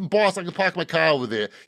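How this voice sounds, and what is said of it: Put-on Boston accent. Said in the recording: “Yeah, I can do the Boston accent.”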